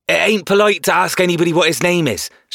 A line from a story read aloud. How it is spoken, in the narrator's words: shouted a fat, quick boy